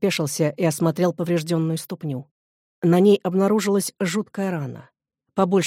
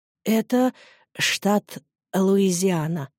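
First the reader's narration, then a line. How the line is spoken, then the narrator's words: Trembling voice. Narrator (Russian): дрожащим голосом выговорил бродяга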